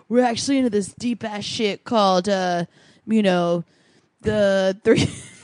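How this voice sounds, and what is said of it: Imitating a typical guy's voice. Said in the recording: “Your impression of guys is so spot on.”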